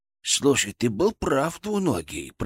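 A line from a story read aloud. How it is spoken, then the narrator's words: Whispered in ear. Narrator (Russian): прошептал он мне на ухо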